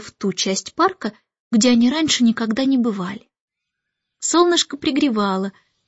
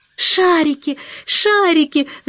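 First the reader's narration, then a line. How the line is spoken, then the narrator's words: Shouting. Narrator (Russian): закричала Джейн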